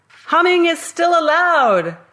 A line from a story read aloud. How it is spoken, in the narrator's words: I shouted